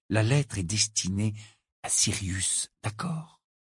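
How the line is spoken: Uncertain murmur. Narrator (French): murmura-t-il sans vraiment savoir pourquoi

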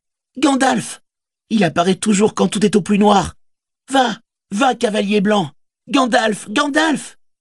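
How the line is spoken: Fervent cheering shout. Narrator (French): cria-t-il avec ferveur, comme le spectateur d'une grande course exhortant un coureur

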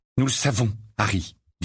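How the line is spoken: Grave tone. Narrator (French): dit Ginny d'un ton grave

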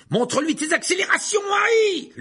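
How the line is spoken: Shouted. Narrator (French): lui cria Fred

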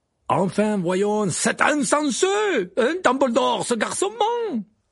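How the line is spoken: Exclaimed. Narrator (French): s'écria Madame Maxime

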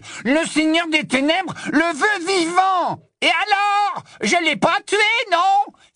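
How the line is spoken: Angry exclamation. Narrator (French): s'écria Crabbe

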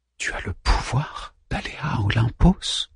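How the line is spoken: Murmuring. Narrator (French): murmure-t-elle

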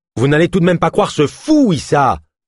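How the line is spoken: Man shouting. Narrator (French): cria l'un des hommes de la délégation

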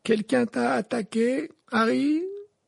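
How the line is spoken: Thick slurred question. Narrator (French): demanda Simus d'une voix pâteuse

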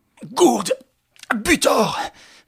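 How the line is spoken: Shout trembling with rage. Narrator (French): cria Lupin qui tremblait de rage

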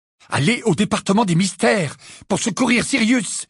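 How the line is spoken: Exclaimed. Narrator (French): s'exclama Harry

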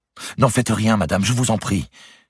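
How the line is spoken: Exclaimed. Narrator (French): s'écria Eudeline

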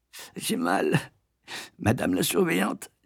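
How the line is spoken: Moaning voice. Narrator (French): dis-je d'une voix gémissante

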